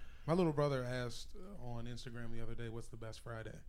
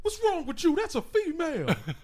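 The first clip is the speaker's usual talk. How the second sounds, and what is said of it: Imitates another person's voice. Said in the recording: “impersonate that one line in the first Friday”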